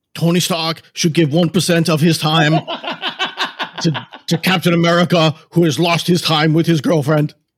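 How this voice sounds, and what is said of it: Bernie Sanders impression. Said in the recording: “I do a better Bernie. ... I would have actually guessed that as Bernie Sanders if you hadn't told me. That's pretty good.”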